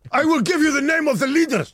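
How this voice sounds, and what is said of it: Non-specific put-on foreign accent. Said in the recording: “my non-specific foreign accent ... it's not from anywhere. Perfectly inoffensive.”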